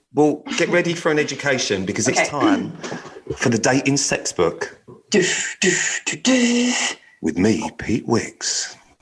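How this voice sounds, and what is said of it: Announcer-style radio voice. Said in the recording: “That was my radio voice.”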